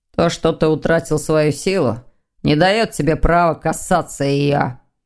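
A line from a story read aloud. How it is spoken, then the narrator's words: Growled. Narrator (Russian): прорычал Дамиан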